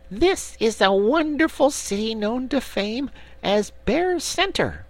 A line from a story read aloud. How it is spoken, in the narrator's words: the little brown bear said in a proud and impressive voice, although it still squeaked